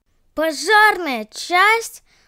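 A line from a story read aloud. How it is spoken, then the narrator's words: Surprised shout. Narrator (Russian): закричала от удивления Айла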